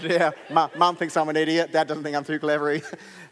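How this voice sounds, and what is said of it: Put-on Australian accent. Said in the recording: “That was my Australian accent, because I don't know if you caught that was Australian. Completely different to an English accent,”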